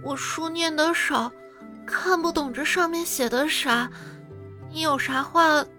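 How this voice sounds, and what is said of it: Speaking quietly, in a low voice. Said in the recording (Chinese): “小声说道”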